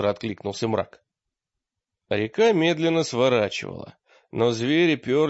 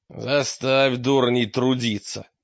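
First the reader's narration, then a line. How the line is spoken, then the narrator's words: Growl. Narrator (Russian): прорычал мрак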